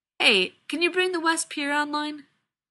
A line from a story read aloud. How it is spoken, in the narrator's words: Rodney sighs